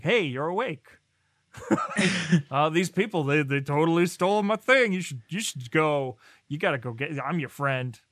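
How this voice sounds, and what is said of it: Poor cartoon character voice impression. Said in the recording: “That's a terrible Xanatos impression. ... I sound like Barney from The Simpsons.”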